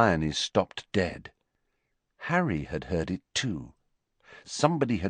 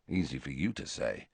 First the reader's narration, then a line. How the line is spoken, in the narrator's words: muttered Harry